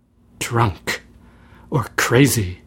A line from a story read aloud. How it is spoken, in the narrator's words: muttered Bartram to himself